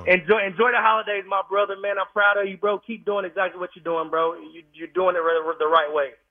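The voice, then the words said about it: Southern American accent. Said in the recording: “He's got a great voice. He's got the Southern accent”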